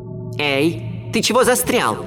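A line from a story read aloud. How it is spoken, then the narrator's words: Shouting. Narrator (Russian): крикнула мне Ути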